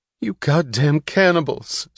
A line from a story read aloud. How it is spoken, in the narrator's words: screamed a woman in the midst of a crowded movie theater, breaking into sudden hysterical sobs